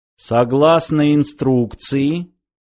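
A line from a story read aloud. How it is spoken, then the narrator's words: Flat monotone. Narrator (Russian): снова начал он ровным, монотонным голосом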